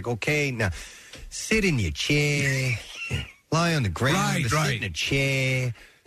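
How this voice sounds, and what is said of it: Imitated pronounced New Zealand/Australian accent. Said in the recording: “He had a very pronounced either New Zealand or Australian accent.”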